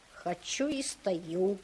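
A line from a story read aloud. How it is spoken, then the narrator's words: Plain. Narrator (Russian): сказал Ваня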